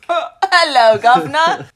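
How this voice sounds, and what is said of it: Exaggerated fake British accent. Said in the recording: “British accent ... Mary Poppins, Dick Van Dyke”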